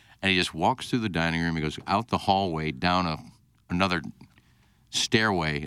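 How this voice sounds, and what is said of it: Usual voice. Nothing is said of it.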